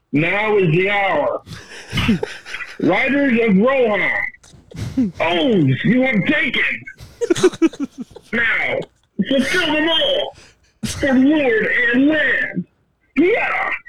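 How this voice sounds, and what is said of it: Howard Dean-style yell at the end. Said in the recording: “you accidentally did a really good Howard Dean impression at the end”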